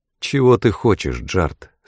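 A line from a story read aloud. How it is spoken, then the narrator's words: Plain question. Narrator (Russian): спросил я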